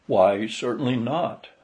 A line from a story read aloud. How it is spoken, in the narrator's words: I replied